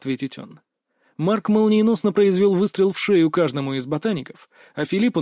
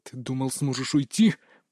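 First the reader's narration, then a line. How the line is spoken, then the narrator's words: Hissed. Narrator (Russian): прошипел он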